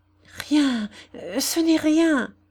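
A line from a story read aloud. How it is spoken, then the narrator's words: Choked voice. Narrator (French): dit enfin la blanchisseuse d'une voix étranglée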